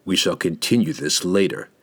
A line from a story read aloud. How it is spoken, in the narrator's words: in a threatening tone